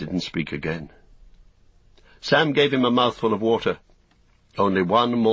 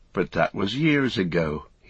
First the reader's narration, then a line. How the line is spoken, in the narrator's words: he sighed